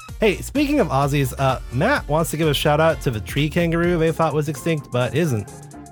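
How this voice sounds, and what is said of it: Congested, stuffy voice. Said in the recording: “Sorry for the accent. Got a cold.”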